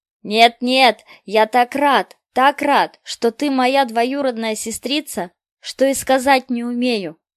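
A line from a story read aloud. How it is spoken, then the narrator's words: Cheerful boy's shout. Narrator (Russian): закричал весело мальчик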